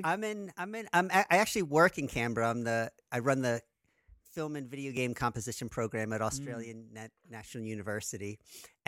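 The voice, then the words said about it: American New Jersey accent. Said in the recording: “you don't have an Australian accent. ... Kept my American accent. ... it is actually a New Jersey accent.”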